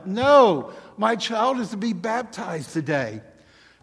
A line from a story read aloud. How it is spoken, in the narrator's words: a woman holding a child cries out